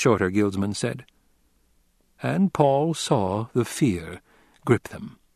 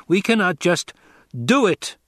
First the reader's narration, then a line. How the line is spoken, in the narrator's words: Paul barked